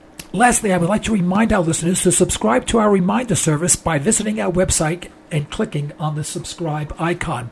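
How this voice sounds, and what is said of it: Weak, strained, sore-throated voice. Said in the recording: “apologize for my voice ... I am still fighting a throat infection ... I'm gaining my voice back a little bit, but it's pretty painful”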